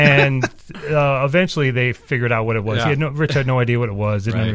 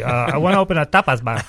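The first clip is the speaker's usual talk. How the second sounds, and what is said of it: Imitates a very thick accent. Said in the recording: “my dad's got a very thick accent.”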